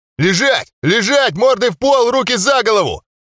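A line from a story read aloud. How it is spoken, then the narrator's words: Yelling. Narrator (Russian): орали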